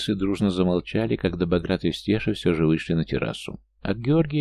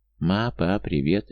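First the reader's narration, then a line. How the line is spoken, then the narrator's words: Cheerful girl's greeting. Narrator (Russian): весело поздоровалась девушка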